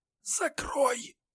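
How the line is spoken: Hoarse wheeze. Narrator (Russian): не прошептал, а просипел Олег

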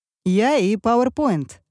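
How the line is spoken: Laughing reply. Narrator (Russian): ответил он, смеясь

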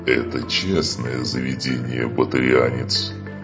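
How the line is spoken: Growling guard. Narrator (Russian): прорычал охранник Кроган

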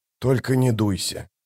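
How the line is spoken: Mutter. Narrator (Russian): пробормотал он

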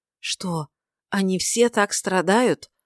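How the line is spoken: Trembling voice. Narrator (Russian): обратился он дрожащим голосом к Мельхиору

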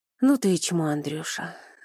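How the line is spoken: Inner exhaled thought. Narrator (Russian): выдохнул мысленно

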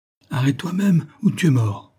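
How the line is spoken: Exclaimed. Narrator (French): s'écria Elim

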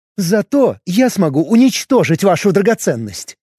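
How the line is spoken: Smirking exclamation. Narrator (Russian): усмехнулась Лейсав и воскликнула

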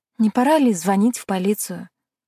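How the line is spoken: Sighed. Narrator (Russian): вздохнула

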